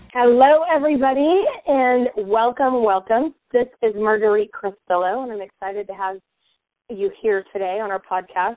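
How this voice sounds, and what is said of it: Raspy voice. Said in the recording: “excuse my voice. I've had a little bit of a cold, so I have that sexy, raspy voice”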